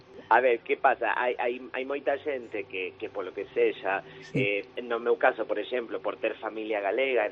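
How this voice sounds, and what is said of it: Argentine accent speaking Galician. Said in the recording (Spanish): “un argentino hablando en gallego, ¿no? Con esa cadencia, ese acento maravilloso que tenéis... ese acento teu tan bonito”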